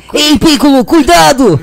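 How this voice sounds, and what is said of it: Imitated cartoon character voice. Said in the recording (Portuguese): “eu imito o Goku, o Kuririn”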